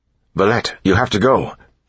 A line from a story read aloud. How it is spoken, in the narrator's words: Elland said urgently